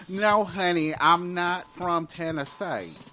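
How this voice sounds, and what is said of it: Odd mixed Southern and Jersey accent. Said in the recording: “That was some sort of weird Southern Jersey accent all at the same time. That was odd.”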